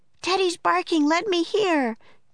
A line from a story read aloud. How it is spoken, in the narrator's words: cried Annie